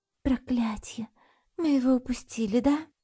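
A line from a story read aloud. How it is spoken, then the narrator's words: Sad meow. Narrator (Russian): Я грустно мяукнул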